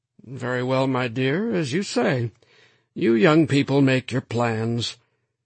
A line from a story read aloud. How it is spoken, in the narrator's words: her father said in a surprisingly mild voice